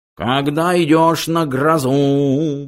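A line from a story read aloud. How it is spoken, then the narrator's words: Nasal howling. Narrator (Russian): гнусаво выл он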